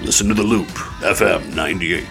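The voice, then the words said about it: Velvety radio announcer voice. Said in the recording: “It's good radio voice... They're good pipes... The velvety tones of...”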